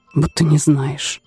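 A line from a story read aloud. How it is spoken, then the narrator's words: Very quiet reply. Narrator (Russian): отозвался Тэ совсем тихо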